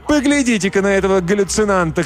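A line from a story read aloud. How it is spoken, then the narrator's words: Shouting woman. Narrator (Russian): кричала другая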